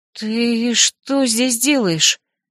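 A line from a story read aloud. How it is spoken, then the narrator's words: Trembling female voice. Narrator (Russian): дрожащим голосом спросила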